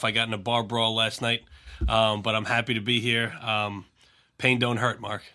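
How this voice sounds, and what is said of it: Slightly rough, hoarse voice. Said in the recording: “My voice is a little rough.”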